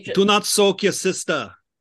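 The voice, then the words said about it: Attempted Belgian accent, Schwarzenegger-like. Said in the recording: “I don't know how to do a Belgium accent. ... I keep trying to sound like Schwarzenegger.”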